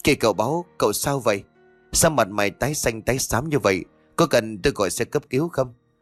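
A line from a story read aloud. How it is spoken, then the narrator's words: Panicked stammering. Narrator (Vietnamese): Ông Hồng bảo vệ nhà xe hốt hoảng lắp bắp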